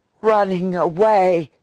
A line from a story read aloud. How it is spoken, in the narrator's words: he gasped